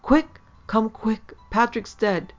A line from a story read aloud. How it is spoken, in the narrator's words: she cried to him